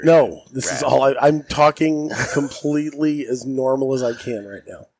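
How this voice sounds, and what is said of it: Hoarse, nearly lost voice. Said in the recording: “I've lost my voice ... You're exaggerating it ... you are talking at a slightly exaggerated”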